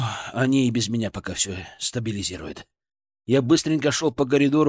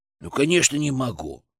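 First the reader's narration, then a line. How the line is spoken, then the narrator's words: Snorted. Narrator (Russian): фыркнул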